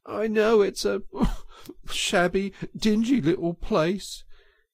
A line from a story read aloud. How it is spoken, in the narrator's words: he sobbed forth at last brokenly